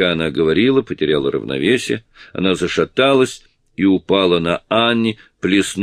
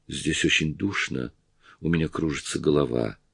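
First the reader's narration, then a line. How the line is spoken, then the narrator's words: Whispering. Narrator (Russian): Кэрри прошептала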